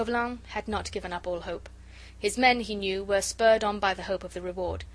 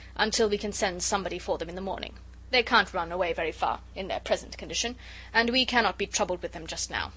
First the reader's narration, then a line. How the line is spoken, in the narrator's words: he added roughly